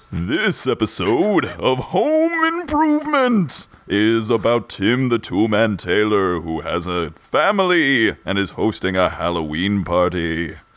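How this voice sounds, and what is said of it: Spooky voice. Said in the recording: “in a spooky voice”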